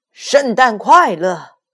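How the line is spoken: Loud, hands cupped. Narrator (Chinese): 他把手拢在嘴边，大声说

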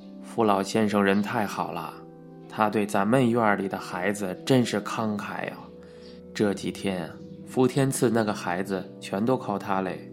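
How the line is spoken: Admiring praise. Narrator (Chinese): 孙修士赞叹道

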